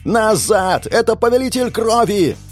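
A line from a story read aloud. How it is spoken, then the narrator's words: Shouting. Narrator (Russian): Закричал я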